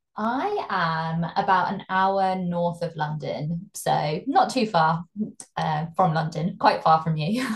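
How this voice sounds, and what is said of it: British accent. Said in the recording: “absolutely luxuriant accent, uh, she is from the UK ... We could listen to this accent all day long”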